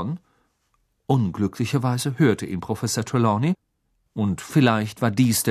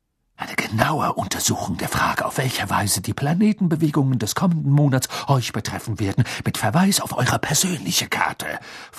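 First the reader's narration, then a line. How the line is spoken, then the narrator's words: Hissed, stern not airy. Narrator (German): fauchte sie und klang dabei eher nach Professor McGonagall als nach ihrem üblichen windig-duftigen Selbst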